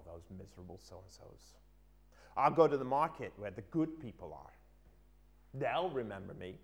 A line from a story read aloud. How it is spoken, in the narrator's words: he muttered to himself